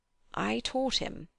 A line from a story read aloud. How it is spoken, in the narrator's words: he quavered